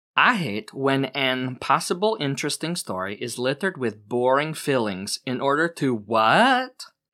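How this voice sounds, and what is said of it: Reads aloud in an accent. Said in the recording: “I'm so distracted by the accent.”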